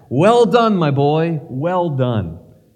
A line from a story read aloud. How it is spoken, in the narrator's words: I heard him shout back